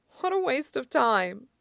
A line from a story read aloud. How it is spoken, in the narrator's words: he mutters to himself